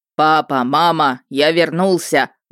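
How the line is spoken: Loud bark. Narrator (Russian): гаркнул Хельги

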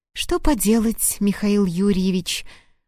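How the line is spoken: Sighing. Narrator (Russian): вздохнула Марина

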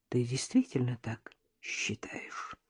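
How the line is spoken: Quiet question. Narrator (Russian): спросила Надежда тихо

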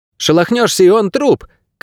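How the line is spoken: Shout. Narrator (Russian): крикнула Мирта

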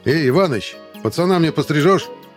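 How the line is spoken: Sudden shout. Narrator (Russian): крикнул вдруг Николай Николаевич куда-то в сторону

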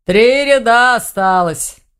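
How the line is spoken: Grumbling. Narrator (Russian): проворчал Думун

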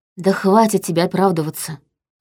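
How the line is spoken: Sighing woman. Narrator (Russian): вздохнула я

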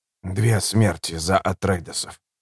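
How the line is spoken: Whisper. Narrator (Russian): прошептал Айдахо

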